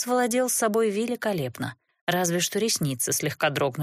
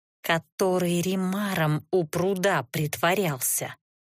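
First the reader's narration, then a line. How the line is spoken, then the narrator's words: Strangled growl. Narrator (Russian): сдавленно прорычала я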